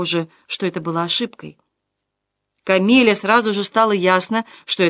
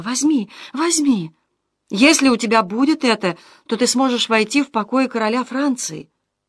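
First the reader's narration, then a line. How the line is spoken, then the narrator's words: Loud whisper. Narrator (Russian): Камила громко шептала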